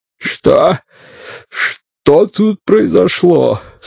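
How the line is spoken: Hoarse question. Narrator (Russian): спросил он хрипло

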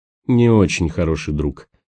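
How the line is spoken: Grim leader declaring. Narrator (Russian): мрачно заявил предводитель партизан

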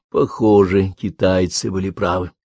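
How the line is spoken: Muttering to himself. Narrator (Russian): тот пробормотал, обращаясь к самому себе

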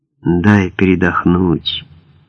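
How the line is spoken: Heavy, strained. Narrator (Russian): тяжело проговорил

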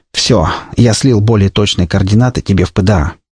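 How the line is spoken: Sighing. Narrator (Russian): вздохнув, сообщил он мне

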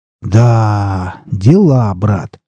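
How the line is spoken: Proud drawl. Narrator (Russian): протянул Александр с гордостью

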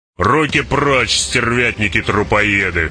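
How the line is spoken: Growled. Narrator (Russian): прорычал Башар

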